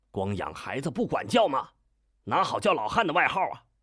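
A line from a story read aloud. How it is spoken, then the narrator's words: Indignant reproach. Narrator (Chinese): 他便怒吼一声，理直气壮地责问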